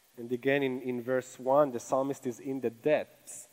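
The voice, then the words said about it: Speaks English with an accent. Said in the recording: “That's a really hard word for me to say with my accent”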